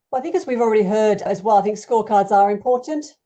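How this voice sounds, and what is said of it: Mellowed Australian accent. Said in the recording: “the accent. Australian? ... Yes, although it's mellowed a little bit ... Australia originally”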